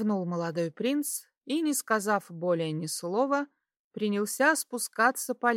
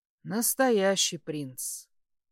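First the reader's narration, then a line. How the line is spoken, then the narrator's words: Quiet snort. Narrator (Russian): хмыкнул он тихо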